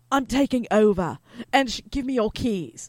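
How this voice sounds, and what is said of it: Stern Australian accent, imitating Tabitha. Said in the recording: “she had this Australian accent, she was very stern, and she'd say...”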